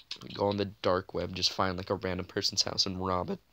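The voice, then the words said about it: Voice cracks. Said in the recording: “My voice cracked.”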